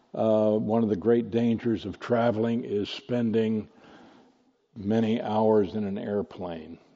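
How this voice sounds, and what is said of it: Slightly impaired, strained voice. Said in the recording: “pardon my voice ... got infected with some kind of a respiratory infection, and it's taken us weeks to stop coughing. But I still have a little bit of a problem with my voice”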